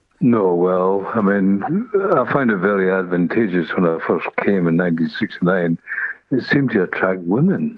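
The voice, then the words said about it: Scottish accent. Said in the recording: “you still wouldn't lose your Scottish accent ... It's such a lovely accent.”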